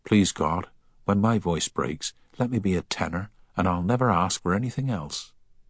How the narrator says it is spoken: he'd more than once whispered

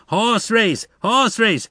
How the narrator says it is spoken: One of the nearest spectators shouted

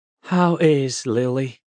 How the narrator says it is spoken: Millard asked, a little sigh of longing escaping him

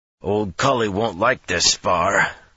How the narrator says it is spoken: the bigger man growled

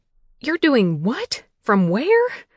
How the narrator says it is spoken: Aunt May sputtered and exclaimed

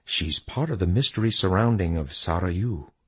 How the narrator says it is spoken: He whispered

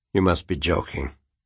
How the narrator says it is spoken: Quentin said quietly

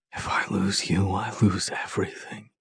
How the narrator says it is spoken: he whispers against my lips

